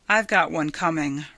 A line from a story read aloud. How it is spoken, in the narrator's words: Ryanson said